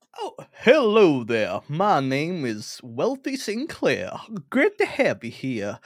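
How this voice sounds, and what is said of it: Put-on wealthy American accent. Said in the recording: “I'm going to try and be a wealthy American ... Is this a problematic accent? ... No, that's not a problematic accent at all.”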